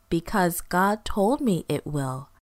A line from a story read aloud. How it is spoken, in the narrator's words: Noah always answered